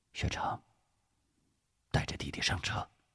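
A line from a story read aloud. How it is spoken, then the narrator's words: Deep, steady voice. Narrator (Chinese): 吴石没有责怪，沉声说道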